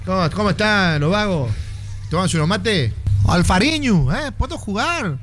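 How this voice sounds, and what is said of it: Put-on Argentine accent. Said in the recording (Spanish): “Así tiene que hablar ... va a tener acento Jurepil”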